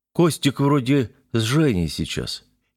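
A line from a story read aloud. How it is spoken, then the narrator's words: Uncertain drawl, young man. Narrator (Russian): неуверенно протянул молодой человек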